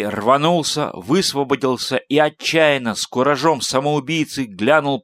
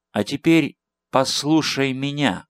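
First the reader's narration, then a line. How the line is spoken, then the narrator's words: Quiet, flautist. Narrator (Russian): тихо начал флейтист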